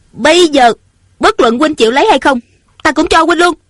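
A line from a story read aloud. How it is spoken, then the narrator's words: Angry. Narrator (Vietnamese): Ung Thanh giận dữ nói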